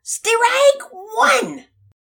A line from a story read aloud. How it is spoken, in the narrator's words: umpire loudly yell